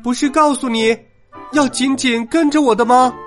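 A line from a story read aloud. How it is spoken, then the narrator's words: Loud shout. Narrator (Chinese): 丽塔大声叫着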